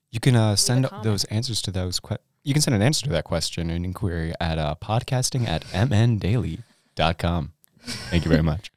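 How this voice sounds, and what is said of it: Sultry radio announcer voice. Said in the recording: “radio voice ... It's gorgeous. ... Sultry.”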